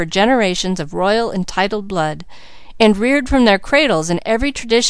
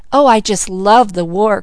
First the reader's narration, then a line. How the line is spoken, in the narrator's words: cried Malcolm